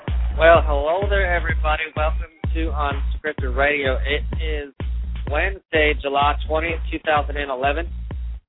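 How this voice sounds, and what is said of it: Put-on Southern US accent. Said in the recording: “I sort of picked up an accent along the way when my southern travels”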